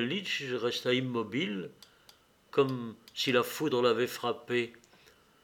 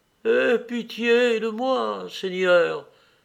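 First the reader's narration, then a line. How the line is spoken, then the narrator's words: Near-sobbing cry. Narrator (French): s'écria-t-il presque en sanglotant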